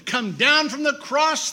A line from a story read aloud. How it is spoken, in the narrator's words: they shouted